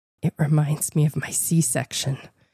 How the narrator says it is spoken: whispered

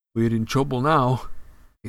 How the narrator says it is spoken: he said hoarsely

